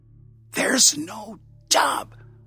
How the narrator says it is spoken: hissed

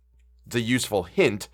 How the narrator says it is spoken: said Ulrich fiercely

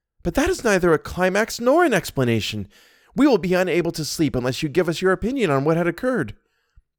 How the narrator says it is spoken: One of them exclaimed

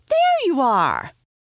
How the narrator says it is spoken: shrieked

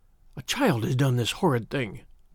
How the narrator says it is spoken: I said in a whisper

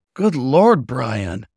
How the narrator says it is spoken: he groaned

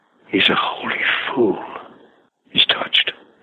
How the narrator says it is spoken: he said, whispered to a couple of us

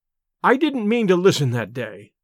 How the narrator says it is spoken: said

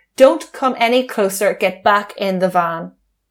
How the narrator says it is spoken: Adrian Lawrence turned in the direction of his girlfriend and shouted

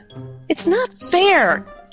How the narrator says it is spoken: cried Maurice

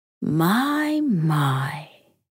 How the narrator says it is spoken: Lyra purred

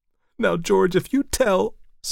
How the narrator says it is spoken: sobbed Elsie

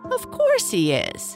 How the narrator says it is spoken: chuckled a voice somewhere near

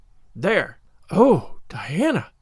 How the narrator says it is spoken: whispered Anne, finding it necessary to lean up against a maple tree for support

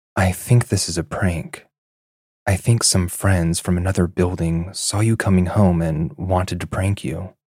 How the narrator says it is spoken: My friend whispered

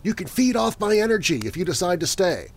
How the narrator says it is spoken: I blurted out

